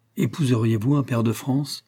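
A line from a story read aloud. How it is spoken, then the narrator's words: Cold question. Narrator (French): demandai-je froidement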